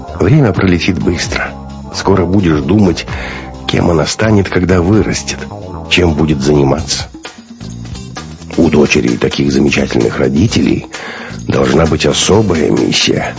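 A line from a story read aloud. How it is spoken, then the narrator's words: Soft, gentle. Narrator (Russian): мягко сказал Бунин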